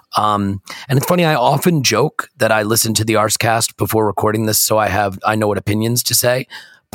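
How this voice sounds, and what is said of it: Croaky voice. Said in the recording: “my voice should give it all away ... If you think my voice sounds croaky now, you should have heard it when I woke up. This is good compared to how it was before.”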